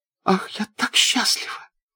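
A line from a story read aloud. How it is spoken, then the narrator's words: Smiling through tears. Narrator (Russian): отвечала, улыбнулась сквозь слезы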